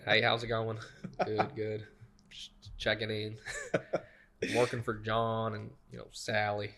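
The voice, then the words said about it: Put-on Southern accent. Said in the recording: “I'll pitch in a Southern accent ... I'm pretty good with it.”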